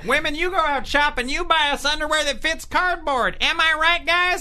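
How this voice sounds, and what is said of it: Gallagher impression, southern accent. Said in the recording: “doing Gallagher's material... with a southern accent”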